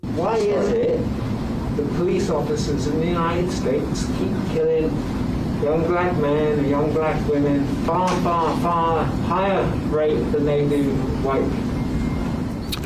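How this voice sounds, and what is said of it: British accent. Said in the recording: “it sounds like the man, the reporter, has a British accent.”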